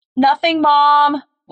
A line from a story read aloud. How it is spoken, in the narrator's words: Laura yelled back